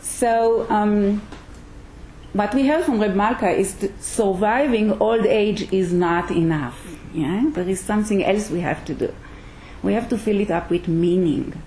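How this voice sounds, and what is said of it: Israeli accent. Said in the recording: “You might hear an accent, yeah? ... This, what you hear is an Israeli accent, yes?”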